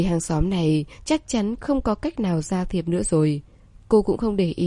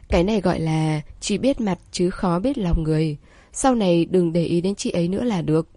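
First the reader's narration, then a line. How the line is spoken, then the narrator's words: Smiling. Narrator (Vietnamese): Trương Tư Ninh mỉm cười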